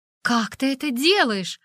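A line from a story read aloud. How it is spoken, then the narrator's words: Exclaimed. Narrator (Russian): воскликнула я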